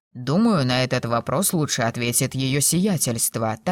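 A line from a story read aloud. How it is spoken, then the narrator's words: Tactful mutter. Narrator (Russian): тактично пробормотал камердинер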